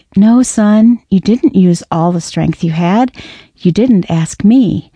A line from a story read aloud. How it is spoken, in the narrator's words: The father corrected kindly